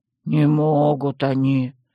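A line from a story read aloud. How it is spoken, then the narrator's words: Hostile mumble. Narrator (Russian): пробурчал гном, неприязненно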